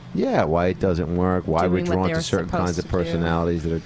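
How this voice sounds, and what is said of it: Flat, tired monotone voice. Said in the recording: “monotone ... I'm just a little tired.”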